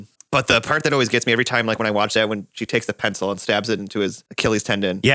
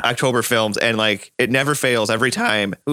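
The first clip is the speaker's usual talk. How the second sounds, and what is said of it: Voice cracks mid-sentence. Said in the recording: “my voice just cracked. Oh, I did it again.”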